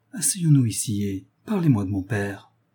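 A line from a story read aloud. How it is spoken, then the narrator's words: Gentle. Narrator (French): dit doucement René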